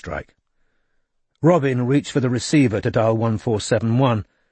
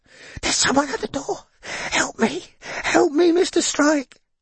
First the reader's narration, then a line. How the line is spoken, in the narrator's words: Billy said in a frantic whisper, his lips evidently pressed against the mouthpiece